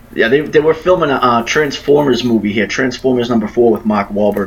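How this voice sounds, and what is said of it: Boston accent. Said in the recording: “You have the same accent.”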